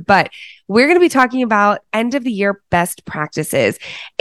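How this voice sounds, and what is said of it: Raspy voice. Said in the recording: “you guys are going to have to forgive my raspy voice ... I'm feeling a little under the weather here”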